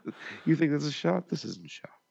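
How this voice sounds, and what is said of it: Whispered imitation of another person's voice. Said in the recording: “That was a good impression... I had to whisper it... the whispering”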